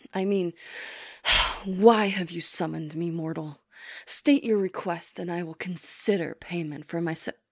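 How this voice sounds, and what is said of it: Creepy, dominant summoned-spirit voice. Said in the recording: “creepy voice ... in order to sound more dominant”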